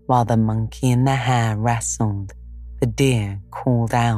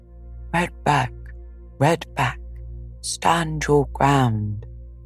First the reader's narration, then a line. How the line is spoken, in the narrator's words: called out the deer